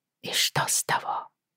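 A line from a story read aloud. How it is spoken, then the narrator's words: Whispered. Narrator (Russian): шепнула Федра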